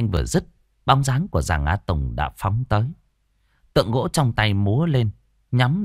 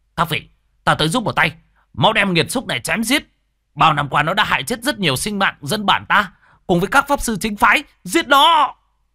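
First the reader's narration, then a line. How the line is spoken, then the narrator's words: Shout while running. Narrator (Vietnamese): lao nhanh ra ngoài miệng hét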